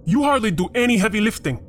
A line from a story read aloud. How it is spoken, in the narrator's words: Peter snapped back